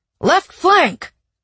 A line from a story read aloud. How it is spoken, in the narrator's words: Alan yelled